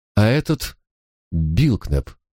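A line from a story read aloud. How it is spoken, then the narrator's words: Plain question. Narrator (Russian): спросила она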